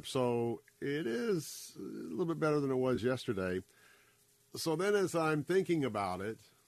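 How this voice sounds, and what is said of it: Lower, congested voice. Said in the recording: “I've got the old achy body ... you can kind of hear my voice is a little bit lower ... I have sinus with a little bit of drip”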